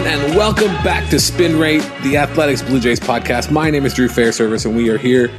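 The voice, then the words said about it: Put-on radio announcer voice. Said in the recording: “There's a really weird radio voice thing going right now. It's a lot. I feel like it's a lot. I'm putting it on a lot. Very performative”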